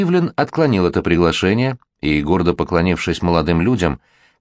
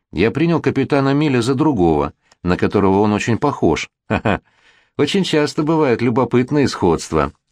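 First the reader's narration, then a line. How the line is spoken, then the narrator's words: Laughing. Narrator (Russian): засмеялся Кассар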